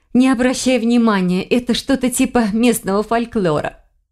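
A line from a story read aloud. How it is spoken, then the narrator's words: Laughing. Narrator (Russian): смеясь сказала она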